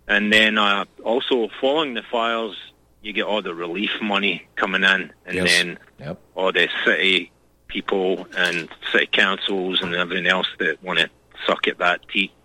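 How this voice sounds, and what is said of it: Scottish accent. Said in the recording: “your accent belies... ... I'm also Scottish.”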